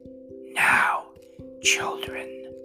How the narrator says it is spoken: whispered

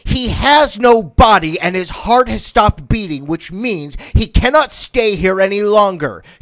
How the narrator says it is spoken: shouted the devil over the screams of the damned

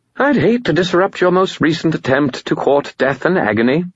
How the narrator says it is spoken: he said brightly

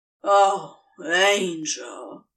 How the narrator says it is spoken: he groaned

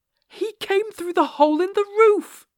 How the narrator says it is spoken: I cried

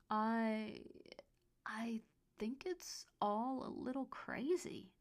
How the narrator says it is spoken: he stammered, not knowing what else to say

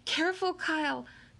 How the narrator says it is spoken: cried Sierra Russell

